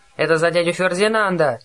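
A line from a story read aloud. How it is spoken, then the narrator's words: Yelled back. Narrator (Russian): завопил в ответ Гровер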